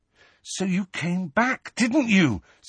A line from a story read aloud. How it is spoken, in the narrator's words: said Harry urgently